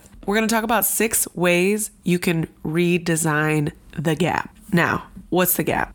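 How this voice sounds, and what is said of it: Weak, sick-sounding voice. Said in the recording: “I'm under the weather. So my voice is I can barely hear myself talk.”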